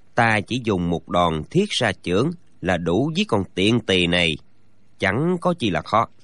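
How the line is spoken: Quiet. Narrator (Vietnamese): Gã nhỏ giọng nói

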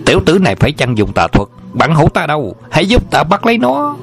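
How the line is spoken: Furious yell. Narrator (Vietnamese): Hà Chấn Viễn tức giận thét lớn

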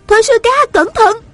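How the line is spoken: Urgent cry. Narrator (Vietnamese): An Tiểu Huệ vội kêu lên

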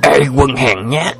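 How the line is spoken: Furious loud shout. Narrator (Vietnamese): Họ Đào càng thêm tức giận quát to

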